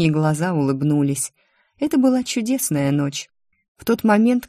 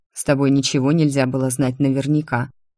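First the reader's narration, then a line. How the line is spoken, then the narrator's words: Grumbling. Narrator (Russian): ворчал мой муж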